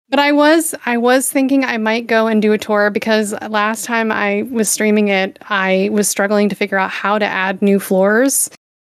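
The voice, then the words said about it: Scratchy, hoarse voice. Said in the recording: “losing my voice a little, apparently, because of the pollen apocalypse ... I feel like my voice is really scratchy ... I've been like sneezing all day and coughing”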